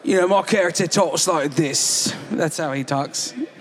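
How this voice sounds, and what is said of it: Jason Statham impression. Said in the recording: “I channel my Jason Statham.”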